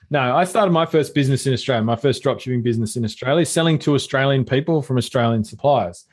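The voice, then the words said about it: Australian accent. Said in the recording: “I'm Australian ... My accent didn't give it away.”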